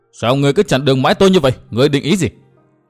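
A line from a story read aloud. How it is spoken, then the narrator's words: Furious roar. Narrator (Vietnamese): chàng bỗng nổi giận đến cực độ, chàng gầm to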